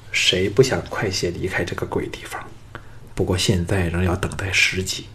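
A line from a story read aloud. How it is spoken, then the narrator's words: Sighing. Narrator (Chinese): 项少龙叹道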